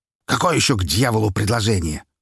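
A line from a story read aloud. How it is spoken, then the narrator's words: Growl. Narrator (Russian): рыкнул он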